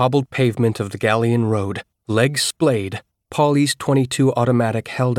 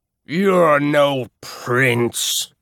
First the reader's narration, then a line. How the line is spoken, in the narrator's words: she said in that rumbling baritone